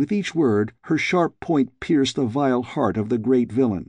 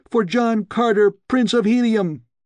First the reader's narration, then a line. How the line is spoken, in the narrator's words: she shrieked